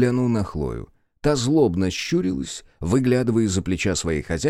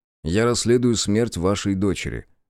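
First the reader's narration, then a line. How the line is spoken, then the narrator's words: Calm. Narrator (Russian): спокойно ответил он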